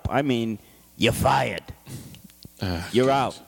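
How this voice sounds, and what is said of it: Imitates another person's voice. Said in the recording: “You like my Donald Trump impression? ... I thought it was good.”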